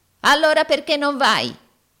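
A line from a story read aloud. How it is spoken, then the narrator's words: Yelled. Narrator (Italian): urlò Arturo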